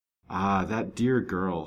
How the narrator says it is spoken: sighed Fanny

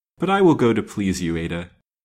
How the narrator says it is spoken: said the widow, with a light sigh

